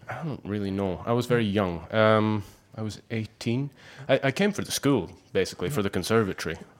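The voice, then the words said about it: Scottish accent. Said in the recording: “You do have a wonderful Scottish accent.”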